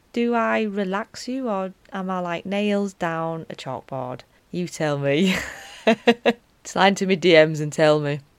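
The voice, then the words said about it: Broad Yorkshire accent. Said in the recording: “this voice, this Yorkshire, broad Yorkshire Wakefield accent”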